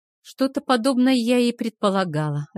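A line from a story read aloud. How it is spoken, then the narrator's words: Sighing reply. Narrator (Russian): ответила я, вздохнув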